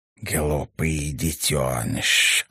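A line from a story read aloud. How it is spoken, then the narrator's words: Contemptuous hiss. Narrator (Russian): презрительно прошипел Ташес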